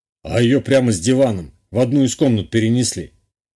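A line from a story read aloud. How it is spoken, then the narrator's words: Smirking grunt. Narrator (Russian): хмыкнул Гунбарь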